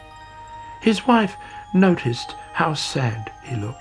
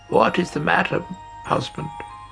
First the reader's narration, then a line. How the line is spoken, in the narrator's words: she croaked